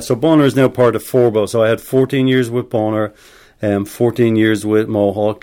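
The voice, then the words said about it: Irish accent. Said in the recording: “you have an Irish accent.”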